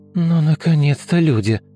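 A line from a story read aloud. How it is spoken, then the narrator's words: Tired sigh. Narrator (Russian): устало выдохнула Олеся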